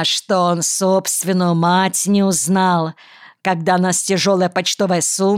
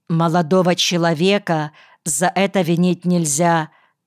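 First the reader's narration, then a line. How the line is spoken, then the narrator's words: Plain. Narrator (Russian): говорит она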